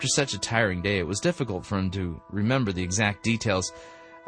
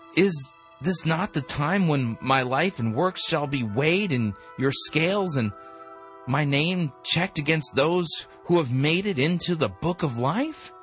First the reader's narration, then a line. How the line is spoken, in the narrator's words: began nervously